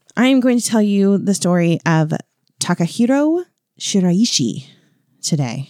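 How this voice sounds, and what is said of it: Slight Japanese accent on name. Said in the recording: “You even had like a little bit of an accent. That was really good. ... Our Japanese listeners are singing your praises”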